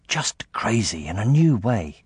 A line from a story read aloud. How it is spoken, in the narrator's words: Jack whispered back